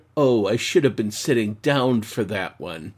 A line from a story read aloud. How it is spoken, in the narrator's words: A quiet muttered